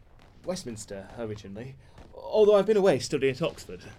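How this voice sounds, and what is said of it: Posh upper-class English accent. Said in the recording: “I thought you sounded posh.”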